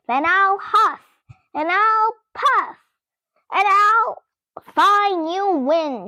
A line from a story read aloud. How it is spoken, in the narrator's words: shouted Pumpkin